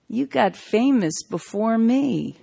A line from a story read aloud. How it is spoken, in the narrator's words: drawled